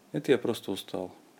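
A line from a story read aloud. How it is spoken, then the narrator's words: Sad speaking. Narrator (Russian): Грустно мне было, но я говорил им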